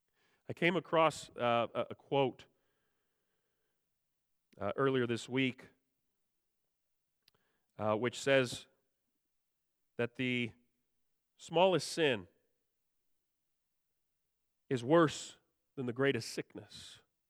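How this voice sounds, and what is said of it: Sick-sounding voice. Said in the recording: “You probably still hear it in my voice. ... we've been sick.”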